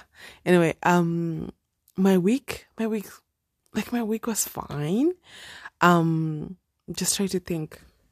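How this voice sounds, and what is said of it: Speaking quietly, low voice. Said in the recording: “I know I'm speaking a bit low because the kids are home. Okay, I cannot be yelling”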